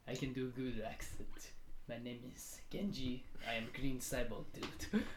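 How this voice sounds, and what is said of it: Put-on Japanese accent. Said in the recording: “And then for Japanese action is ... I don't like when people think that they can do good accents.”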